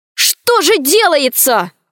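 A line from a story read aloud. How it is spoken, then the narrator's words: Male shout. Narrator (Russian): крикнул Гаврилов наблюдателям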